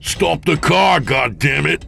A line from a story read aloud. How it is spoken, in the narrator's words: James bellowed